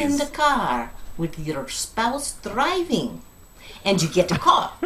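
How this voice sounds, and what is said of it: Silly put-on accent. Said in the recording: “silly accent... good accent”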